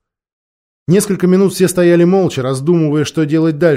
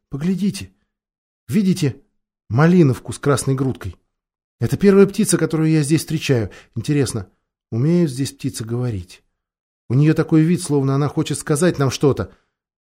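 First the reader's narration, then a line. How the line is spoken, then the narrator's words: Whispered. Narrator (Russian): Люси шепнула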